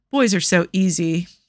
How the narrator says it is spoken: she sighed

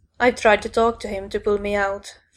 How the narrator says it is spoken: Frankie said grimly

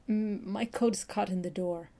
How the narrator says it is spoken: Ray stuttered

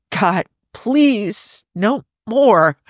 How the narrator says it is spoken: Jim gasps, moaning hoarsely

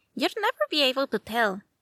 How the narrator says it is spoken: Frida said brightly

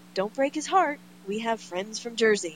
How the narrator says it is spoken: smiling cheerfully as he says

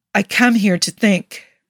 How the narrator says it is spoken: Rodney said tightly

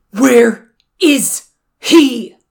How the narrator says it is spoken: Jiang Cheng bellowed into the Wen Dog's face

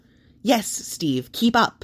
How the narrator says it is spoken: Dustin says impatiently

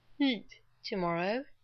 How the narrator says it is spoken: he broke off to yawn

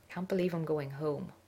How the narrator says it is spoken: Rodney murmured

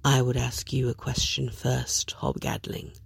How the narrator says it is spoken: Dream says softly

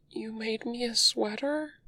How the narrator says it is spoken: He asks, unsteadily

